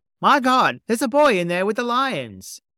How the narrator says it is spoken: yelled a man

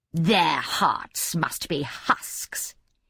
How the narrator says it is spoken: sneered inwardly

